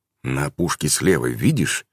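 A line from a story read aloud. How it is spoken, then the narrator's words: Quiet. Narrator (Russian): Алвас тихо произнес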